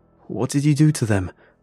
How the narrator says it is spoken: I screamed

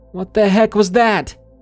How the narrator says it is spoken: yelled out into the darkness

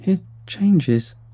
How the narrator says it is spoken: he cried

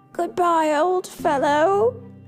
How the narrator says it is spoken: he called out sadly, sure that Fritz was gone forever

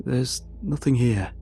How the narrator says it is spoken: he said

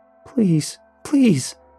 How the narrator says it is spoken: he nearly screamed at me

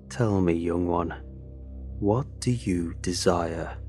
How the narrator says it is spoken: the cloaked figure asked me, his voice raspy and low

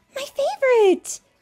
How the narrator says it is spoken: cried Rookie

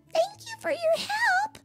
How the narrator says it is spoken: squeaked the three little pigs

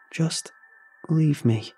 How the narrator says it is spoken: she said in a weak, sad voice

